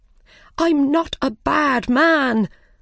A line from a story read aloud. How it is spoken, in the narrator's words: the Mad Hatter cried